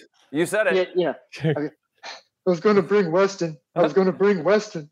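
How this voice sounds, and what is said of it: Bruce Arena impression. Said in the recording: “Bruce Arena, I can also do his accent ... that's pretty good ... slightly better”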